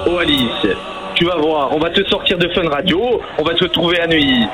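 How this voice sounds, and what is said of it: Put-on Corsican French accent. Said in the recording (French): “cette personne qui fait un accent corse”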